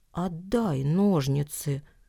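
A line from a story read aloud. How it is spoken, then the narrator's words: Quiet request. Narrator (Russian): тихо попросил Никита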